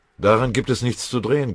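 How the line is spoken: Growling. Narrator (German): knurrte Beutelschläger

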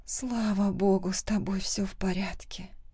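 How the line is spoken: Quiet. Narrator (Russian): говорю тихо

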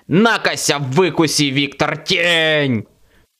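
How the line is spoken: Shouting. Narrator (Russian): кричал

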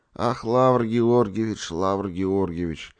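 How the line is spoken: Tearful sigh. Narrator (Russian): вздохнул Деникин, утирая глаза

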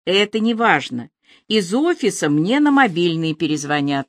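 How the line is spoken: Plain. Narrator (Russian): ответил он

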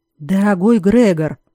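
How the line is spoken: Hoarse voice after throat-clearing. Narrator (Russian): хрипло проговорил он, откашлившись

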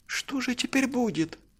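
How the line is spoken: Tearful question. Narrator (Russian): сквозь слезы спросил Алёша

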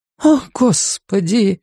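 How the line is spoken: Breathless exclamation. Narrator (Russian): выдохнула одна женщина

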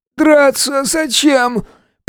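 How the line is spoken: Hoarse, breathless. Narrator (Russian): прохрипел, все еще силясь восстановить дыхание

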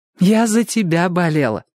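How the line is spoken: Joyful. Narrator (Russian): сказала она радостно

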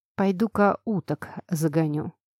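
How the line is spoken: Plain. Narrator (Russian): сказала мне

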